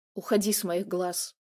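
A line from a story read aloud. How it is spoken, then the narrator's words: Growling. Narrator (Russian): рыкнул Каменев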